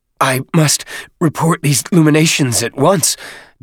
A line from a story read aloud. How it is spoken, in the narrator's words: Dadaab gasped